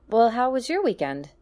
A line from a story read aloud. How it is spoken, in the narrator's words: She asked in a falsely chipper voice